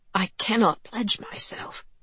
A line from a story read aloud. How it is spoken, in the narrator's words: he'd whispered to Politzer and Graham